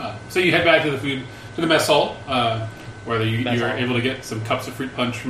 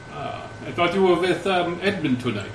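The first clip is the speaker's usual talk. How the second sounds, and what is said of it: Character voice with put-on accent. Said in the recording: “Drop the accent.”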